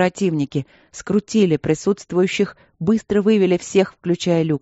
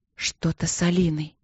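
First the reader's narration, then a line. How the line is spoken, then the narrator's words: Breathless whisper. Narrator (Russian): прошептала она, тяжело дыша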